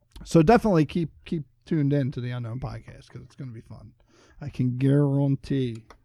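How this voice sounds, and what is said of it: Bad put-on Cajun accent. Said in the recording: “That was my bad Cajun accent.”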